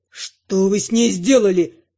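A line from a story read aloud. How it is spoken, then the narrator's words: Growl. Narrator (Russian): рыкнул он на магистра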